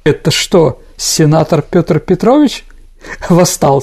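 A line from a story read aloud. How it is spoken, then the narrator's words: Plain. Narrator (Russian): спросил Николай II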